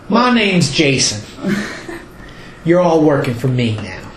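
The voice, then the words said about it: Bad put-on Southern Texan accent. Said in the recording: “Stop with the crappy accent. ... It's all about the crappy accent. ... Crappy Southern ... Texan.”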